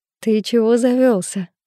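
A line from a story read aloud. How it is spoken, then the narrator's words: Laughing. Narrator (Russian): рассмеялась я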